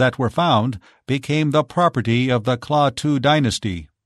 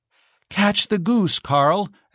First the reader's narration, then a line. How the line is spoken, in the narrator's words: exclaimed Giselle